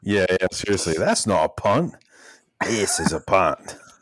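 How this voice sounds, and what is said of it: Crocodile Dundee Australian accent impression. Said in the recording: “This is a punt in a Crocodile D accent ... You did it much better than I did with the actual accent ... Aussie”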